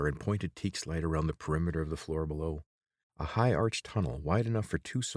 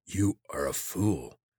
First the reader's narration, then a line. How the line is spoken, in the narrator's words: croaked